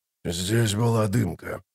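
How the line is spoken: Grumbling mutter. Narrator (Russian): пробурчал он

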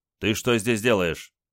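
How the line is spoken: Stern question. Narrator (Russian): майор строго спросил

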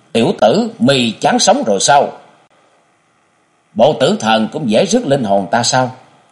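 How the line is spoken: Shouting. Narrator (Vietnamese): Quát

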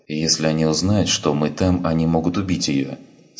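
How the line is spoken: Plain. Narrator (Russian): сказал Андерсон

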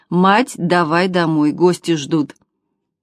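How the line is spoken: Stern male declaration. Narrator (Russian): сын грозно заявил

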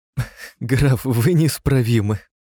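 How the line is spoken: Laughing, grand duchess. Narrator (Russian): сквозь смех проговорила великая княжна

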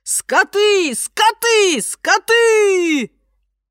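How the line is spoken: Shouting. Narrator (Russian): Один турист кричал

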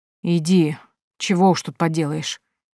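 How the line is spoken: Groaning. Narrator (Russian): застонал

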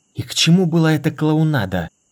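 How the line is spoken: Hissing. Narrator (Russian): прошипел Дорин

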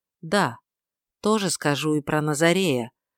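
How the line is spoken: Soft. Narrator (Russian): сказал он мягко

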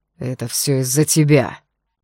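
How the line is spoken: Growled in helpless rage. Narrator (Russian): прорычал он в бессильной злобе

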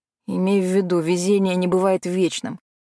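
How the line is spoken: Sighing. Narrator (Russian): вздохнул Макс

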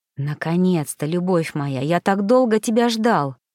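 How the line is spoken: Hoarse whisper. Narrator (Russian): хрипло зашептал он

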